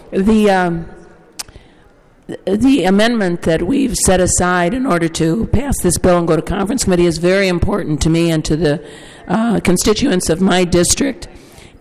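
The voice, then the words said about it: Hoarse, strained voice. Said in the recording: “lost my voice”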